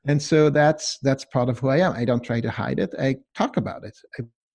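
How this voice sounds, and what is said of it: Hard-to-place accent, a bit German. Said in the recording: “I've got a funky accent... Nobody can figure out where I'm from... It sounds a bit German”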